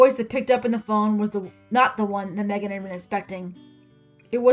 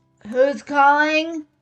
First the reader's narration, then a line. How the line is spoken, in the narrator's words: the woman on the other end asked, slurring her words